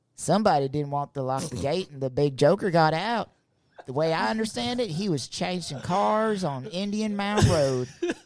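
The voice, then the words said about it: Put-on North Carolina accent. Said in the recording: “in my best Reba Luther accent ... North Carolina”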